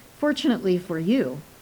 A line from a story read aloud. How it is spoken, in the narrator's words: I replied